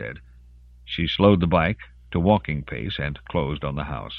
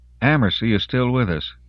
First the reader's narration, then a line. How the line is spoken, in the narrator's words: Jacintha said dryly